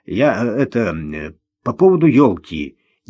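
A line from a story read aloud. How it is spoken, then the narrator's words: Hesitant. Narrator (Russian): неуверенно начал он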